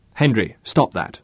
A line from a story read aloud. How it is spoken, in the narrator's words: snapped Bruce